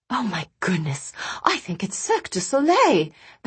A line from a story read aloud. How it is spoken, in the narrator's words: the guests began murmuring excitedly